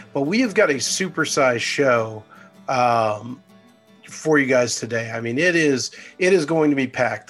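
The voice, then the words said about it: Slightly hoarse voice. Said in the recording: “I sound a little hoarse”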